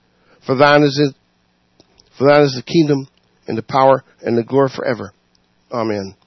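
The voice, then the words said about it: Hoarse, scratchy voice. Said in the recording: “I'm a little hoarse today. ... So that's kind of where the scratchy voice comes from.”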